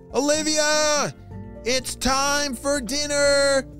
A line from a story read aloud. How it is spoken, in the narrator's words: shouted her mom